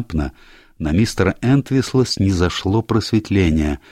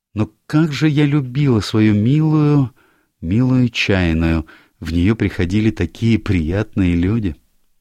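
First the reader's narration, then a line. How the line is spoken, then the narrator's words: Breathless, then sad. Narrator (Russian): слегка задохнувшись, а потом грустно добавила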